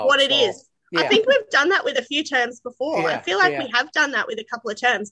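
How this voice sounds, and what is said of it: Australian accent. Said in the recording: “we were bringing ... on mostly for the accent ... that accent ... Aussie-isms ... Australian terms”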